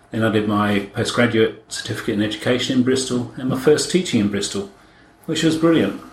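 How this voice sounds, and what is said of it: British accent. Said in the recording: “Started off in the UK, as you can probably tell by accent”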